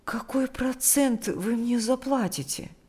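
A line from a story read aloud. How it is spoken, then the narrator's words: Timid. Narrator (Russian): спросила она робко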